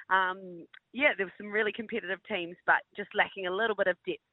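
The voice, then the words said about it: New Zealand accent. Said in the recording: “we can tell by your accent you are a Gold Coast local, i.e., a, Kiwi.”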